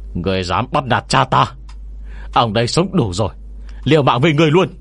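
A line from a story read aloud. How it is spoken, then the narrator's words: Sudden roar. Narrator (Vietnamese): Bạch Vô Cầu đột nhiên gầm lên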